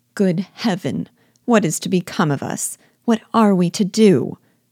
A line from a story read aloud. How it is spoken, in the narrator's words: would they often exclaim in the bitterness of woe